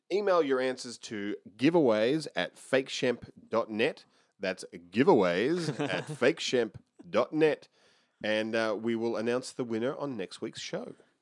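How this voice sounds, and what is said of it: Fake game show host voice. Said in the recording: “fake game show voice”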